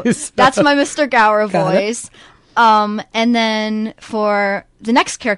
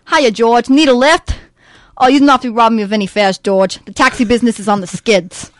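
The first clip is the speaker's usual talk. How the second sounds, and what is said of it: Put-on New York accent. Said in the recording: “for him, I do this New Yorker accent. And for this role, I learned how to do a New Yorker accent, so I'm still working on it. But I think it's pretty good ... Wonderfully done.”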